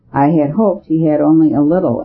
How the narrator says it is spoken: answered Brown in a rather troubled voice

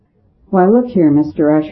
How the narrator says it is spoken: said Father Brown quietly

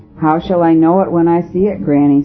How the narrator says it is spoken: said

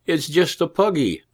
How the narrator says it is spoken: cried the shepherd's wife

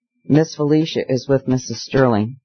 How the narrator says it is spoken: the servant stammered in answer to a question

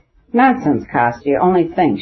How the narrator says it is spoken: she said, laughing

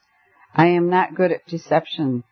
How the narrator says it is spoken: said Tuesday, gloomily flushing

